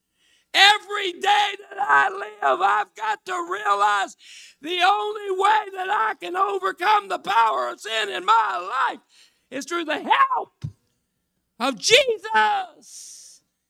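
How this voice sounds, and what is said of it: Yelling, loud preaching voice. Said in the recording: “I'm yelling,”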